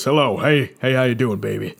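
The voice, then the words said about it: Smooth authoritative 1970s DJ voice. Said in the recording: “authoritative voice ... smooth, like like like uh like uh 1970s DJ voice”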